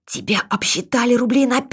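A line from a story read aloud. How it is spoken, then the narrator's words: Whispered. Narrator (Russian): Катерина шепотом сказала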